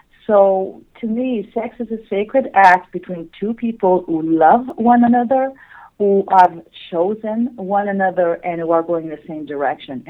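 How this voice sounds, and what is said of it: Slight French-Canadian accent. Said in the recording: “maybe a slight accent ... she's French-Canadian, and that explains the difference in her English”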